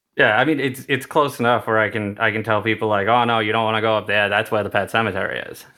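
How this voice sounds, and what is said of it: Thick older New England accent. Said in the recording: “I will just let my accent come out... I have a bit of a thick accent... It's technically a Maine Seacoast accent... I feel like it's an older New England accent”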